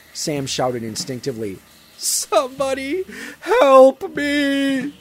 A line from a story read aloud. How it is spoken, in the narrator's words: He gasped, doing his best to conserve his breath